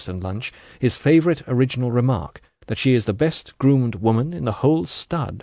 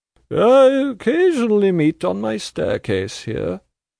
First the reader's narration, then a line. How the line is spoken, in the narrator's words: drawls Volumnia, whose thoughts perhaps are already hopping up it to bed, after a long evening of very desultory talk